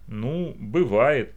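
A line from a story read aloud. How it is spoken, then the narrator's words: Uncertain reply. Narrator (Russian): неуверенно ответил он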